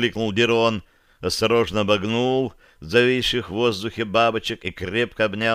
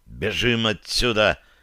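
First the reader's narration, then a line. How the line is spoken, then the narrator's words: Angry breathy. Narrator (Russian): зло выдохнул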